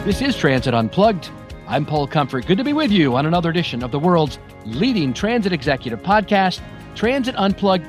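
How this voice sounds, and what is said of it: Polished radio broadcaster voice. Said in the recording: “You have such a great radio voice.”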